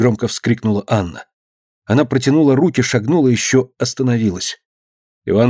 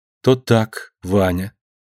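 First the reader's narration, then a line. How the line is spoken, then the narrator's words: Slow. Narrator (Russian): заговорила Анна медленно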